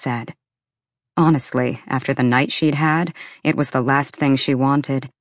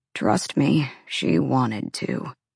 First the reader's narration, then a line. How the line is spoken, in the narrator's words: Ethan said bitterly